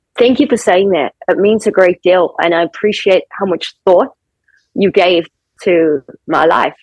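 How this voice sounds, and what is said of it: Non-American accent. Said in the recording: “that accent is, it's not American”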